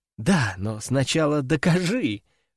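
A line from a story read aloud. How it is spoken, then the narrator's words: Laughing. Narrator (Russian): рассмеялась Катюша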